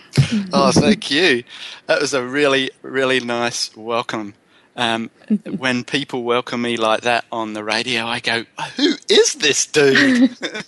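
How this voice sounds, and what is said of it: Speaks with a noticeable accent. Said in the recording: “your accent, I must admit, just adds to the whole package”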